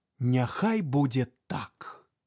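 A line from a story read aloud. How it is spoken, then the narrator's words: Smiling reply. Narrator (Belarusian): Тха усміхнуўся і адказаў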